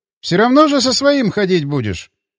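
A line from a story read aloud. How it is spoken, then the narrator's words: Snorting. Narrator (Russian): хмыкнул Атаманов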